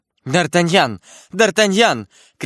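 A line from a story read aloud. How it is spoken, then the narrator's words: Shouting. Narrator (Russian): кричала она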